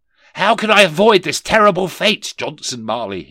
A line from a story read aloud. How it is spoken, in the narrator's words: cried